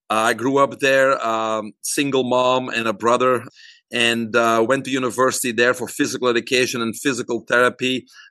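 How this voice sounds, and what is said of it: Belgian accent in English. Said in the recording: “You probably may notice an accent too. I'm originally from Belgium.”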